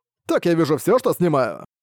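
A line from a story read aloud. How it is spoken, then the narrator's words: Trader giggling. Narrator (Russian): торговец продолжал хихикать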